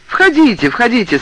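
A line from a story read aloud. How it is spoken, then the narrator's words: Joyful welcoming. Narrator (Russian): сказал он радостно, словно меня ждал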